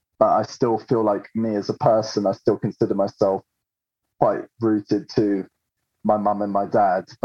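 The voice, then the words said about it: English accent. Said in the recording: “I've lived here since I was five, and I've got that accent. ... There's a bit of me that is English”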